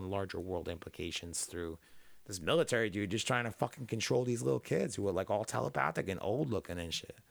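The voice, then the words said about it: Low, rough, worn-out voice. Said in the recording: “my voice just did that. This is my third podcast today ... Getting that squeak ... I got like that smoker fucking low right now ... my voice sounds awful”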